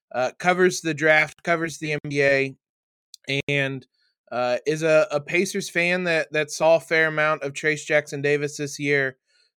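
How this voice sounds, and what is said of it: Slightly hoarse voice. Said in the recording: “My voice is a little hoarse, and I think I'm starting to get sickness”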